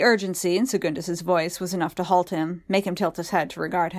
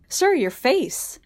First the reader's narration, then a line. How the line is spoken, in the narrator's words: Segundus cried